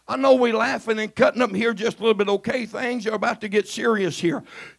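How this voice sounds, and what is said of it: Hoarse, strained voice. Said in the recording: “I have laryngitis.”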